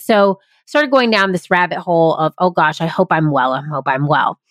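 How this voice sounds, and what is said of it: Voice sounds unwell, not great. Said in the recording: “My voice has not been great. I have been getting sick a lot lately.”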